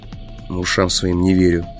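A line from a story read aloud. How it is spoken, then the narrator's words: Mumble. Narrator (Russian): пробормотал я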